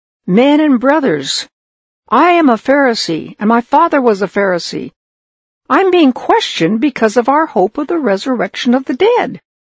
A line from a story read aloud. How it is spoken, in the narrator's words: he shouted out